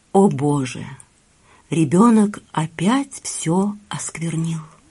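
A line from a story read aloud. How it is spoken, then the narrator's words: Barely audible. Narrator (Russian): Брахман еле слышно проговорил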